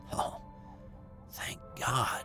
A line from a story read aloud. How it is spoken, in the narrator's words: I said to myself under my breath